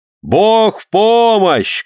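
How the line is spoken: Group shouting. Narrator (Russian): крикнули Пади Омур и его семья

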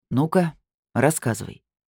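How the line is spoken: Stern demand. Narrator (Russian): строго потребовал инспектор

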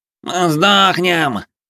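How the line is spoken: Strained voice. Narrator (Russian): рожащим голосом произнес Плешивый

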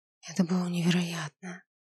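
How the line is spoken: Breathless exhale. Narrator (Russian): выдохнула я

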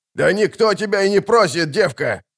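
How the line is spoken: Man shouting. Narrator (Russian): крикнул мужик

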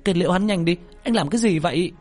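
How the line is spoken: Shouting. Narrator (Vietnamese): Tú Linh hét lên

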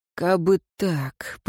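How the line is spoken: Muttering. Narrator (Russian): пробормотал смотритель

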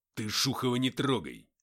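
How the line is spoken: Angry bark. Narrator (Russian): рявкнул Артем

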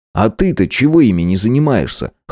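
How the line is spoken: Snorting smirk. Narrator (Russian): хмыкнул я

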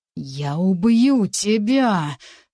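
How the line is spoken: Hissed through teeth. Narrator (Russian): сквозь зубы процедил Ренет

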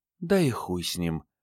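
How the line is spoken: Whisper in the ear. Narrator (Russian): прошептала в ухо ворона

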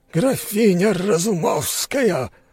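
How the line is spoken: Growled. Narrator (Russian): прорычал он

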